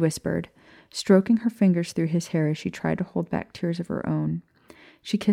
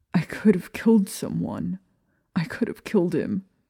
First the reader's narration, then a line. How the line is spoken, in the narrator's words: said through gasping sobs